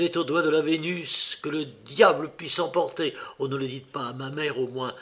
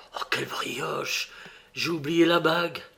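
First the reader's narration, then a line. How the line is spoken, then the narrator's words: Whispered. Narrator (French): Alphonse, me dit tout bas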